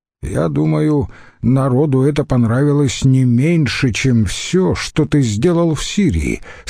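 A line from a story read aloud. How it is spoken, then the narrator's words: Plain. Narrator (Russian): сказал ему Брут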